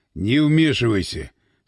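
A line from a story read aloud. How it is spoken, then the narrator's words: Stern warning. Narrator (Russian): строго предупредил Васина Иван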